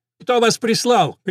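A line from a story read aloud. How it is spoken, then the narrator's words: Shouting. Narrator (Russian): крикнул он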